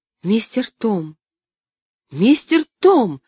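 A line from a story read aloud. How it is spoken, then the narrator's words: Shouting. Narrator (Russian): кричала она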